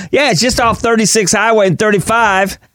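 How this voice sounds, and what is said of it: Put-on country accent. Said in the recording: “Can I sound country enough? ... am I sounding country enough”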